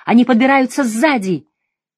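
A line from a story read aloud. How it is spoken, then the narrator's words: Gasping, full-force shout. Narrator (Russian): Сделав глубокий судорожный вдох, он изо всех сил крикнул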